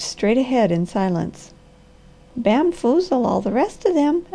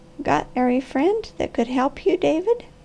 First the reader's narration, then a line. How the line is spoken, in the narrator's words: The old lady with a mist in her eyes and a quaver in her voice, and asked softly